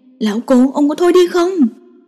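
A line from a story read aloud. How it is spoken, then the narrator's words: Exasperated shout. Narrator (Vietnamese): Diệp Lộ lại hét lên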